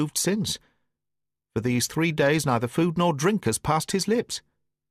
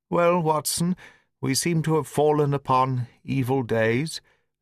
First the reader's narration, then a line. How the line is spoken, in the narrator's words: said he, in a feeble voice, but with something of his old carelessness of manner